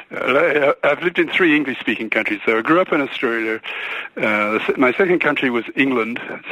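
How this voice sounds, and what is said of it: Mixed Australian and British accent. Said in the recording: “a British accent or an Aussie accent or a real mix ... It's a nice mix.”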